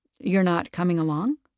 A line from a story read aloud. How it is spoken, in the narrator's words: she asked